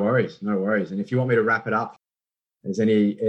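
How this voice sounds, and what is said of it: Usual voice. Nothing is said of it.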